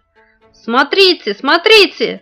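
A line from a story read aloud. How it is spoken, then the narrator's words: Shout. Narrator (Russian): закричал Ваня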